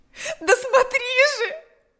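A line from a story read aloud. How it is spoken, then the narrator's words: Shouting. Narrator (Russian): закричала она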